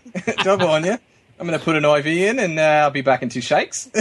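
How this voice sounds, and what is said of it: Chipper put-on Australian accent. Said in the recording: “the Australian accent, it always sounds so chipper, even if it's the most dour of news”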